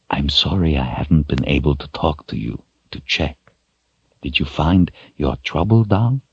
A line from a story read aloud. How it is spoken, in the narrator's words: whispered